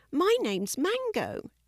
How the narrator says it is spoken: she said happily

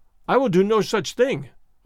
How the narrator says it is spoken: I cried

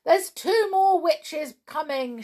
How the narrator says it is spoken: shouted the pixies

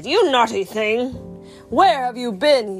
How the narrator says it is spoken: he thundered

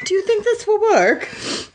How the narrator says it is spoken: He asked timidly

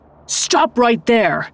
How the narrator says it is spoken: yelled

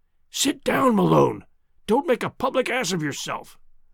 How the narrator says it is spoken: Tarp Henry, my companion, I heard him whispering

